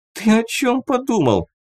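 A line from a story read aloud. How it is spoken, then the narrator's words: Laughing. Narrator (Russian): рассмеялась Рина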